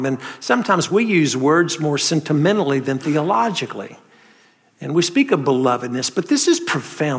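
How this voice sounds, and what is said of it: Southern North Carolina accent. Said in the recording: “I'm a Southerner. You can tell from this North Carolina accent”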